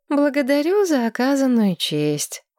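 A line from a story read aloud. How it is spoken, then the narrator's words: Dejected reply. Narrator (Russian): уныло отозвалась Маргарет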